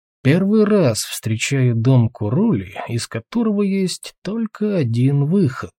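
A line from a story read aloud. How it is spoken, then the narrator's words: Thoughtful mutter. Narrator (Russian): задумчиво пробормотал Тулгрим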